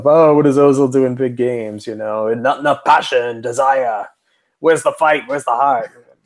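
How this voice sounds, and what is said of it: British accent drifting into Australian. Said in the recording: “that was my British accent ... I turned into like Crocodile Dundee midway through that”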